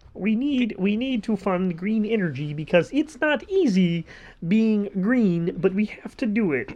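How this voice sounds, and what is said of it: Kermit the Frog character voice. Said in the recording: “That's Kermit! That's perfect ... Kermit!”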